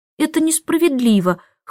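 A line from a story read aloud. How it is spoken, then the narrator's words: Whimpering. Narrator (Russian): хныкала она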